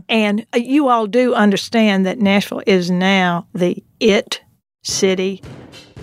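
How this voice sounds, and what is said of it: Strong Southern American accent. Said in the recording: “I'm going to put on my most Southern accent ... I thought that was pretty Southern”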